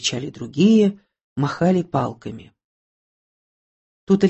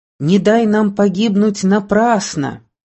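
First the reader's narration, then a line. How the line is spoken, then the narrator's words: Shouting voices. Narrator (Russian): кричали одни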